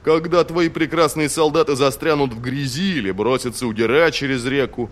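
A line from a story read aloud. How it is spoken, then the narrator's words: Booming. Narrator (Russian): прогремел Тул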